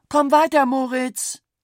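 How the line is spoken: Mother calling out. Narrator (German): rief seine Mutter

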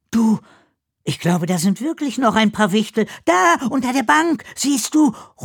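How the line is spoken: Excited call. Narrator (German): ruft Ella aufgeregt

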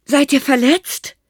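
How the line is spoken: Grandfather calling down. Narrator (German): rief Opa hinunter

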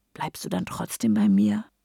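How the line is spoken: Whispered. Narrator (German): flüstere

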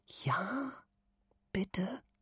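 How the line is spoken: Eager whisper. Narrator (German): flüstert sie mit glänzenden Augen

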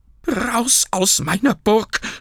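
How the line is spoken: Shouting. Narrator (German): schrie Burkhard

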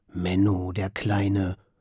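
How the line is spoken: Muttering. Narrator (German): murmelt Paul

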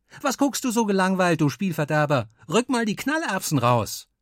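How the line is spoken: Exuberant shout. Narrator (German): übermütig rief

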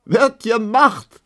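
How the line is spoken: Laughing. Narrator (German): lachte die lange Emma

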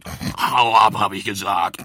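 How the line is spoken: Roaring wild boar. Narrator (German): brüllte das Wildschwein

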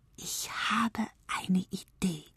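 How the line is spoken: Whispering. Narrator (German): flüsterte die kleine Zeit

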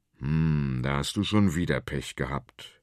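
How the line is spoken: Big man's gruff grumble. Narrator (German): brummt der große Konrad

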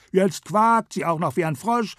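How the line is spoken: Monkey's mocking call. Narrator (German): rief der Affe spöttisch

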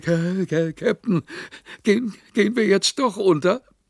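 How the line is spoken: Panting. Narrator (German): keuchte

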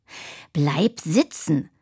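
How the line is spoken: Unsympathetic hiss. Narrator (German): fauchte Tine gar nicht mehr sehr einfühlsam

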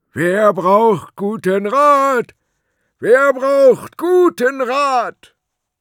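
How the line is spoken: Loudest shout through funnel. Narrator (German): schnappte sich den Trichter, rief vom Eingang aus, so laut er konnte

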